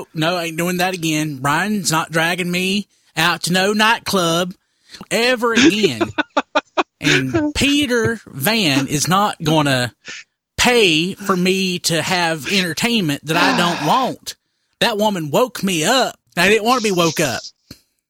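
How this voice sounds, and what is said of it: Impression of Don, not convincing. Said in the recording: “That was not a good Don impression. . That's not a good Don impression”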